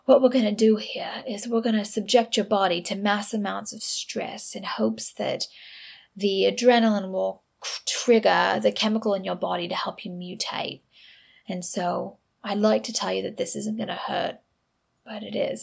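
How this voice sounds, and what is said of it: Dramatic British-Australian accent, unconvincing. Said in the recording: “this dramatic British guy ... maybe that's kind of Australian. I'm not very good with my accents these days”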